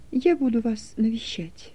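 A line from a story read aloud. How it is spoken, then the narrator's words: Quiet farewell. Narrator (Russian): тихо сказала на прощание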